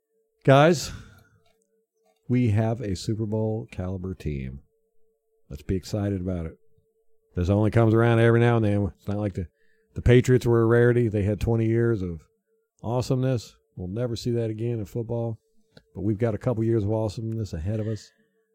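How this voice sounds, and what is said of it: Flat monotone unexcited delivery. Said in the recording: “I was going to comment how monotone you are about it... you, like, just put me to sleep.”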